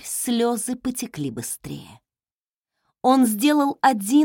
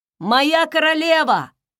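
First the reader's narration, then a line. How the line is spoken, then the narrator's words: Shouting. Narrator (Russian): закричал Кагал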